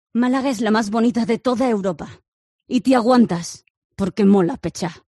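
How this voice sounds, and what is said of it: Sinister Disney villain voice. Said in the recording (Spanish): “una mala de Disney con voz de tenebrosa ... Esa es de villana total.”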